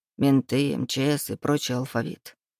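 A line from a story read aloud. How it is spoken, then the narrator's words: Muttering. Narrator (Russian): бормотал Лука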